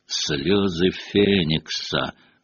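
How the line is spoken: Thoughtful drawl. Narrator (Russian): протянул Реддл в задумчивости

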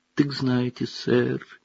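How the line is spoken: Sad. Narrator (Russian): печально проговорил эльф

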